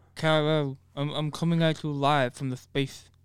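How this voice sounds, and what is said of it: Imitates another person's voice. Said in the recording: “my Marlon Brando impression... We both suck at this shit.”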